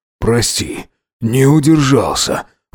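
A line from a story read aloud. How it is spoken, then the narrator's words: Breathless exhale. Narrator (Russian): выдохнул Макс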